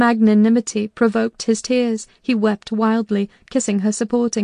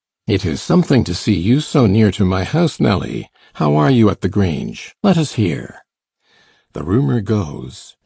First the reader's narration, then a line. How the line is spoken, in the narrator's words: added in a lower tone